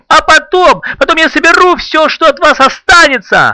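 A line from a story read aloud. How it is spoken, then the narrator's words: Yelling. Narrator (Russian): орал Артур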